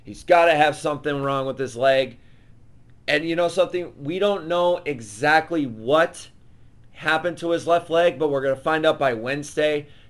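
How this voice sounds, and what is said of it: Hoarse, worn-out voice. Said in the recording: “my voice is gone. It's shot.”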